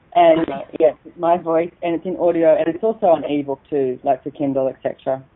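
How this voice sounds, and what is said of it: Australian accent. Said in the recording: “in my Aussie accent”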